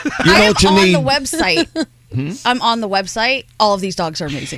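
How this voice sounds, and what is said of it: Bronx accent. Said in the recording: “in her Bronx accent”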